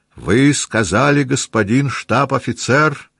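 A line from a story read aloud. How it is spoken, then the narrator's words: Offended tone. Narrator (Russian): продолжал полковник обиженным тоном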